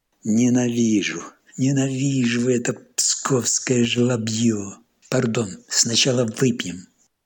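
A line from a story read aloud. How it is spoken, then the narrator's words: Exclamation, then quieter. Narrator (Russian): воскликнул Марков и чуть потише добавил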